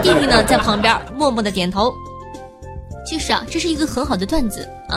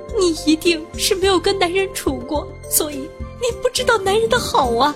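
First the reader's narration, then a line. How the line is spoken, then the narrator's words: Wailing, tearful speech. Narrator (Chinese): 他妈妈听后嚎啕大哭…痛哭流涕的说道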